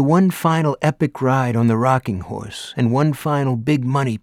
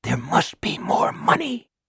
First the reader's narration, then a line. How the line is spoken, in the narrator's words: the house whispered